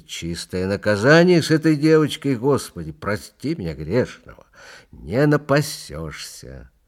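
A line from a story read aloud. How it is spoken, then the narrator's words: Angry speech. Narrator (Russian): отец Сисой проговорил сердито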